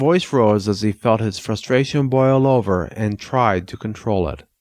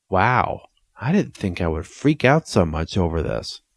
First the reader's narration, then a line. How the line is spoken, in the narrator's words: his double muttered